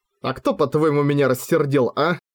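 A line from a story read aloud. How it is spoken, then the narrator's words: Laughing nonstop. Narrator (Russian): Хора же продолжала смеяться без остановки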